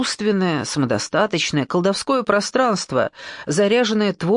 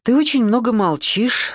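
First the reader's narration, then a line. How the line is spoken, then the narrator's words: Said with a sigh. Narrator (Russian): сказала Александра, вздохнув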